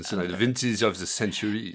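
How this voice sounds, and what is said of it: Put-on French accent. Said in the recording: “I should say in a French accent”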